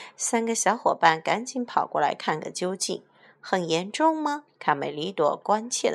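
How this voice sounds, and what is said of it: Usual voice. Nothing is said of it.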